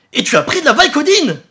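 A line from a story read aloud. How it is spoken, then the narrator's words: Father thundering. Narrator (French): tonna son père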